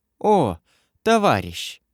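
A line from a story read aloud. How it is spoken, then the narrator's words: Dreary, whining voice. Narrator (Russian): сказала она унылым, ноющим голосом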